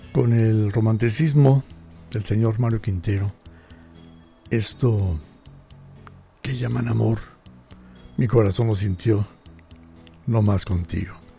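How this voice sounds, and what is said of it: Deep announcer-like voice. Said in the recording (Spanish): “Me salió voz de locutor. Por las alergias”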